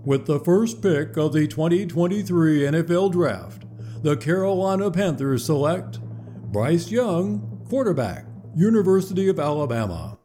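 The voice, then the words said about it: Imitates another person's voice. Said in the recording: “in my best Roger Goodell voice,”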